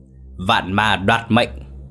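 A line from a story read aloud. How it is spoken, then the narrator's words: Furious roar. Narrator (Vietnamese): Quỷ soái gầm lên đầy giận dữ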